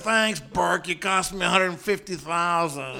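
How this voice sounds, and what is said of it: Good impression of a man. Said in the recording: “very good impression, by the way... When he goes, $150,000... it is a good impression”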